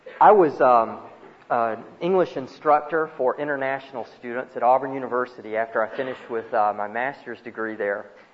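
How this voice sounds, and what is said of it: Alabama Southern US accent. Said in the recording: “Auburn University is in Alabama, by the way, thus the accent”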